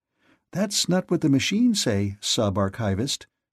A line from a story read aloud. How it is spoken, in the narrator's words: she told him, her voice candy-sweet